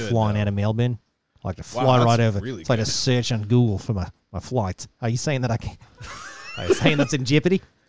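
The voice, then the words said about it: Put-on Australian accent. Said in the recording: “nice accent ... congratulations on pronouncing Jeopardy so fluently in an Australian accent ... That was really good.”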